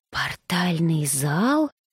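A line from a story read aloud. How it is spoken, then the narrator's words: Whispered question. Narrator (Russian): шепотом, никому конкретно не обращаясь, спросила брюнетка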